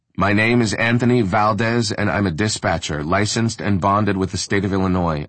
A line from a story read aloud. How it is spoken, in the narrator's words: I said loudly to the now considerable assembled crowd